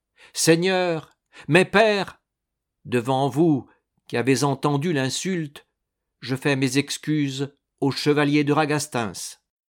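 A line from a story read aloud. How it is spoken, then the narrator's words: Loud voice. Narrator (French): dit Jean Malatesta d'une voix forte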